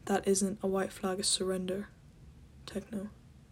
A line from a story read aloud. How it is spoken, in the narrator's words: Wilbur said quietly